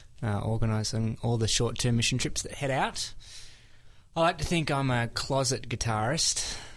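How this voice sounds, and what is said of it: Australian accent. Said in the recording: “What's that accent we hear? ... Australian. ... Aussie man.”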